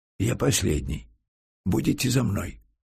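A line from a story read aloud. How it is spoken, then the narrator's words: Whispered. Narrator (Russian): сказал почему-то шепотом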